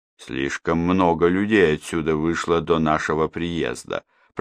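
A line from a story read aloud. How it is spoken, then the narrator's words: Muttered. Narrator (Russian): пробормотал инспектор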